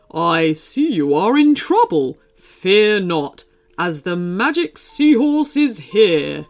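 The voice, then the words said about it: Regal character voice. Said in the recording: “in a regal voice”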